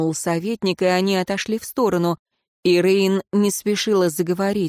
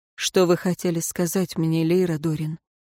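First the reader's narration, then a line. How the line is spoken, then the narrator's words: Soft question. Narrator (Russian): мягко спросил советник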